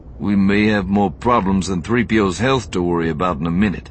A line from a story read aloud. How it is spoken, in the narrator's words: Lando said grimly